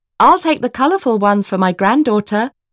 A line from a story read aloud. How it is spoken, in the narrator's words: the baker called out, smiling